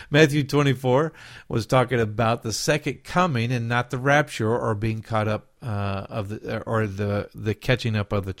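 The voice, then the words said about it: Southern accent. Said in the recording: “that's my southern accent coming out”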